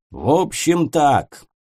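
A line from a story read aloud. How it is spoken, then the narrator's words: Growling. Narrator (Russian): рыкнул для самых непонятливых пристав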